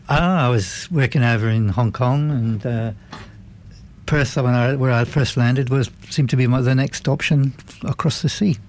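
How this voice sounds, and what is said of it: Slight Welsh accent. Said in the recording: “I detect a slight accent ... I'm from Wales”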